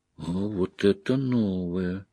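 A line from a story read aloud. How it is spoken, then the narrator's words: Quiet. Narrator (Russian): тихо произнесла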